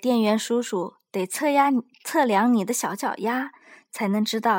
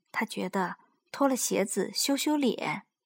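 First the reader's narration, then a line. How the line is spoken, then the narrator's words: Quiet, embarrassed. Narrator (Chinese): 卡尤红着脸小声说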